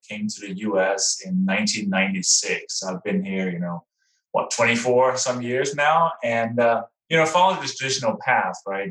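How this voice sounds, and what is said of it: Slight Danish accent. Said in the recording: “people may recognize a little bit of an accent. So I was actually born in Denmark”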